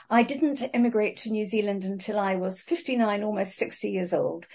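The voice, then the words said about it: English accent. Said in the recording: “you can probably tell by my accent that I'm English”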